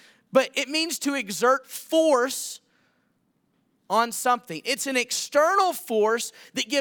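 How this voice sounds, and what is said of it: Usual voice. Nothing is said of it.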